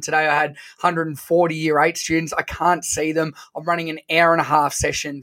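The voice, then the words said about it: Hoarse voice. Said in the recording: “My voice is a little bit hoarse.”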